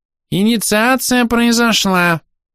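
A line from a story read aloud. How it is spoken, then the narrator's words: Surprisingly thin squeak. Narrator (Russian): удивительно тонким голосом пискнул Верховный Хорох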